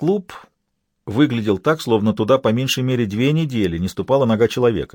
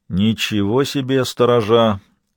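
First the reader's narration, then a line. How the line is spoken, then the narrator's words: Grumbling. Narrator (Russian): проворчал Лабрюер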